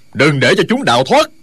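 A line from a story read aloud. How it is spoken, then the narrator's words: Furious shout. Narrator (Vietnamese): Du Liên Châu cả giận quát to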